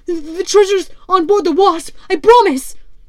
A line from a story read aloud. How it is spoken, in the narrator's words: cried the prisoner